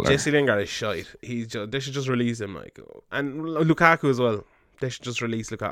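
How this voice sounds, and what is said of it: Strained, worn-out voice. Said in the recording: “My voice is gone.”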